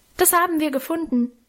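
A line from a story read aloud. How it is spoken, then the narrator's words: Calling out. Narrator (German): ich rief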